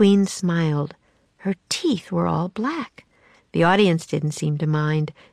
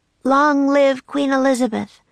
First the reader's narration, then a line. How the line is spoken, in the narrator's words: shouted Jack and Annie